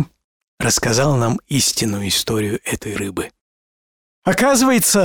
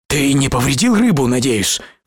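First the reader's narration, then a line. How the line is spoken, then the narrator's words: Alarmed exclamation. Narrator (Russian): в тревоге воскликнул я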